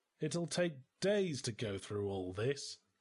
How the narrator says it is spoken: I muttered

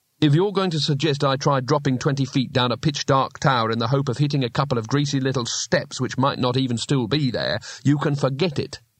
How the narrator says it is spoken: said Rincewind sharply

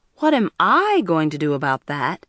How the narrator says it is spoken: Toby said indignantly

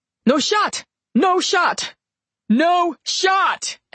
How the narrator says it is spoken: Edward yelled from the far side of Domino

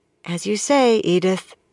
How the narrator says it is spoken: almost as meekly

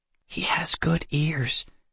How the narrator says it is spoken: Kendra whispered

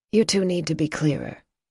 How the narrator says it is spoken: Ina said, her tone flat

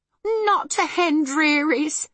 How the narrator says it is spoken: cried Homily

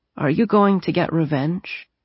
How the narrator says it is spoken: Wink asked in her sleepy voice

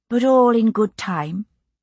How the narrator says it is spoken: said calmly

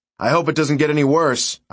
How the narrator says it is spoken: I shouted

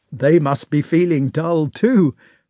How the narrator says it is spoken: said one of the bolder officers, laughing

